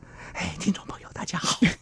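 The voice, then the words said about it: Quiet, hushed speaking voice. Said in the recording (Chinese): “那留言呢，我又不敢大声，那就小声的说话。...小声的说话，小声一小声”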